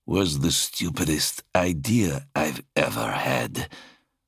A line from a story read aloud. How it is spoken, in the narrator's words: he said through gritted teeth